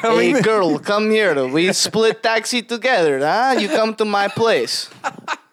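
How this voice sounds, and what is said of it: Stereotypical put-on Russian accent. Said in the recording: “the stereotypical like Russian accent”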